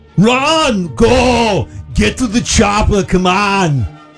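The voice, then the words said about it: Arnold Schwarzenegger impression. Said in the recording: “do an impression ... It's Arnold Schwarzenegger.”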